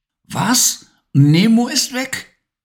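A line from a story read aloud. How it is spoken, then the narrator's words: Frightened call. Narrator (German): rief Levi ängstlich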